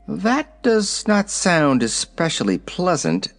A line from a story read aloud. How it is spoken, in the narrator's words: said the little man